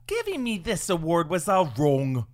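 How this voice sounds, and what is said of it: Margot Robbie as Harley Quinn impression. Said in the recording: “your best impression of Margot Robbie accepting her 2021 Oscar for Best Actress in Character as Harley Quinn”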